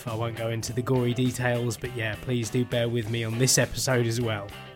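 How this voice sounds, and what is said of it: Tired-sounding voice. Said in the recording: “you might hear a bit of a difference in my voice as well on this episode... if my voice sounds a little bit tired, that's because I'm coughing and sneezing”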